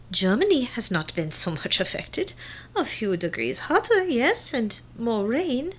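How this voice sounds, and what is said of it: Thick German accent. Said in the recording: “You've never even lost your accent. In fact, I think it's getting thicker as the years go by.”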